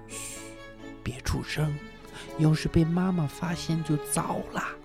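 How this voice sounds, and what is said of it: Speaking in a hushed whisper. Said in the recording (Chinese): “小声说”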